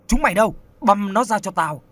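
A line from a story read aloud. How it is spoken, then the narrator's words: Furious loud shout. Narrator (Vietnamese): Lân Châu như không nuốt nổi cái cục tức, hắn quát lớn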